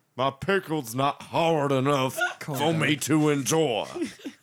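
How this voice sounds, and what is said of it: Good Foghorn Leghorn cartoon voice. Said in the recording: “You do a pretty good voice there, my friend. Pretty good. ... Foghorn Leghorn”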